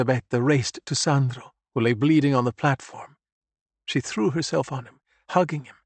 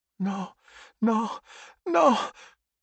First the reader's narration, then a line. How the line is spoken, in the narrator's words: Elisabetta cried, her head against Sandro's chest